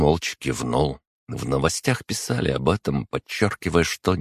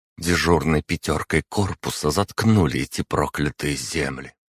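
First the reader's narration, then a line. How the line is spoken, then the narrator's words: Through gritted teeth. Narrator (Russian): процедила ведьма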